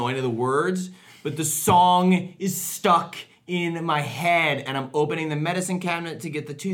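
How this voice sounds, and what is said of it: Usual voice. Nothing is said of it.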